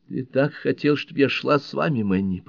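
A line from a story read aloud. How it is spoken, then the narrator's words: Moaned. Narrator (Russian): простонала Бель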